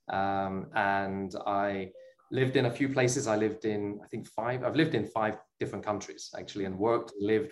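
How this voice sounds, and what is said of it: British accent. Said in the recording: “as you can probably hear from the accent, I was not born in Israel, I was born in the UK.”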